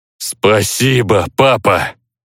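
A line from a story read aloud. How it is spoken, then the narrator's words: Booming drone. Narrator (Russian): Прогудел босс в ослепительном белом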